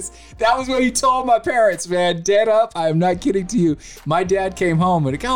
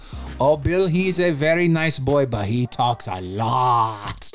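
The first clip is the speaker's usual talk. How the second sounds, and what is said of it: Imitated thick Asian accent. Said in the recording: “he had a very thick Asian accent”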